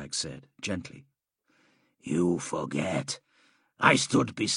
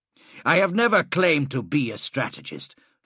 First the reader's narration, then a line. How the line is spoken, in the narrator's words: Fabius said sharply